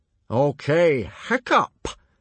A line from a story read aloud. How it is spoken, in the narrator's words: boomed Gober in surprise